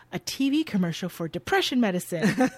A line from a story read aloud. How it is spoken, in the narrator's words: Cash responds excitedly